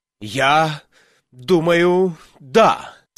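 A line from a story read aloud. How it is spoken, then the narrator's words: Rather agitated voice. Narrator (Russian): сказал Слакхорн довольно взволнованным голосом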